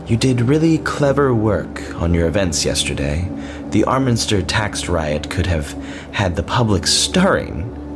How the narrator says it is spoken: said with a breathy laugh

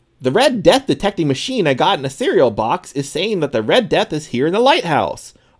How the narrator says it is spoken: Oswald exclaimed

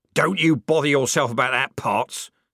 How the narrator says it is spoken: snapped the corporal

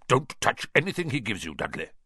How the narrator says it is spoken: Uncle Vernon said sharply

